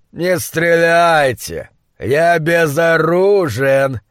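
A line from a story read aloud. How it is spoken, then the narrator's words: Shout with purring growl. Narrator (Russian): крикнул он с обычным своим львиным мурлыканьем в голосе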